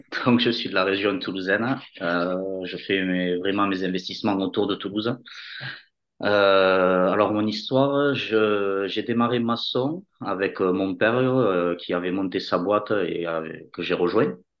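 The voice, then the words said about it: Marked Toulouse southern French accent. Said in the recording (French): “il paraît que j'ai un accent marqué de, Toulouse.”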